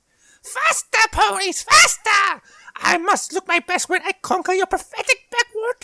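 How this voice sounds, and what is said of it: Shrill cartoon villain impression. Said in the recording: “to do a Starscream impression, but it's going to be really bad ... you've got the shrillness, but not the menace”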